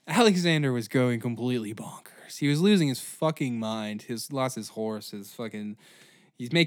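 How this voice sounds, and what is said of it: Usual voice. Nothing is said of it.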